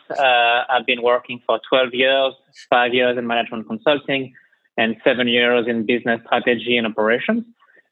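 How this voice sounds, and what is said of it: French accent. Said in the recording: “as you can tell from my accent, I'm originally from France.”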